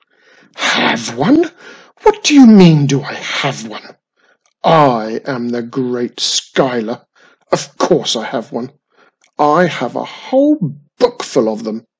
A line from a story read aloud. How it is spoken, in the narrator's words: snapped